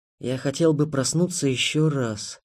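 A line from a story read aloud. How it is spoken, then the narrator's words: Whisper. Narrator (Russian): прошептал Ярослав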